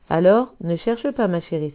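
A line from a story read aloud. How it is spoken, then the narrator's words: Exclaimed. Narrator (French): s'exclame Mamé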